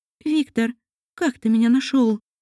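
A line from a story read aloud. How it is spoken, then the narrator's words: Trembling voice. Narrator (Russian): Дрожащим голосом произнесла эльфийка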